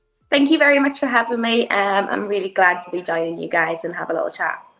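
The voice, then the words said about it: British accent, not very thick. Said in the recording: “we heard that UK accent ... you don't have that thicker accent that I noticed that those up north”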